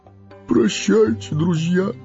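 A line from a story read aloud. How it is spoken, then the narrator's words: Sobbing. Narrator (Russian): всхлипнул он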